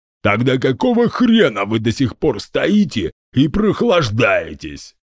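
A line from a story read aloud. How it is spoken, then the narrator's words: Booming. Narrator (Russian): прогудел генерал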